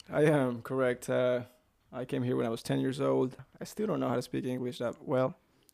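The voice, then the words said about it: Light, easily understood accent. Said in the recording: “You only have the cool kind of an accent, not the non-understandable kind of an accent.”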